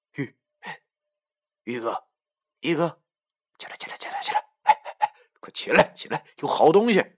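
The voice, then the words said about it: Whispered, hushed urgent voice. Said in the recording (Chinese): “小声的说”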